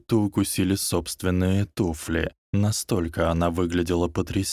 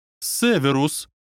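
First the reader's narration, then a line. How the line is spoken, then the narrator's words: Exclamation. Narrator (Russian): воскликнула Минерва МакГонагалл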